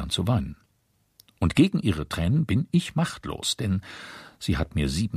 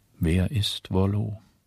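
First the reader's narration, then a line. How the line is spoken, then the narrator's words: Tired question. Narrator (German): fragte müde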